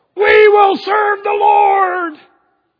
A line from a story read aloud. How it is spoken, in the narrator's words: 2 million people shout out